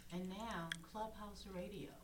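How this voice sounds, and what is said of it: Smooth radio announcer voice. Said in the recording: “Ooh, smooth. That's a smooth radio voice right there.”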